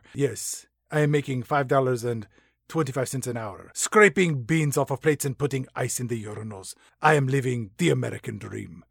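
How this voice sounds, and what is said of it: Put-on Latin accent, sarcastic. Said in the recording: “That is sarcasm, in case you cannot tell through my sexy Latin accent.”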